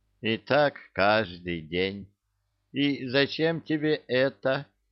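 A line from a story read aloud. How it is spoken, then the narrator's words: Puzzled drawl. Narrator (Russian): Недоуменно протянул Гена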